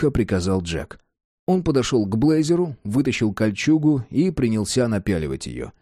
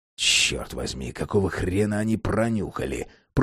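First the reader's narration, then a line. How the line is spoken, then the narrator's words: Hissed. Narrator (Russian): прошипел Джек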